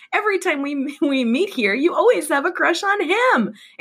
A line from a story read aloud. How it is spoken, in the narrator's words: exclaimed Lindsay